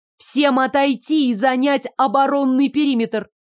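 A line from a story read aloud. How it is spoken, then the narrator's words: Ringing shout. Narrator (Russian): звонко крикнула Дашка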